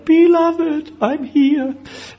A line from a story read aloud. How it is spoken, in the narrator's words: cries out